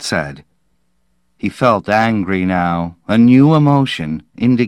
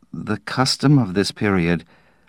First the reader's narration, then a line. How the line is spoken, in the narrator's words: Slade said feebly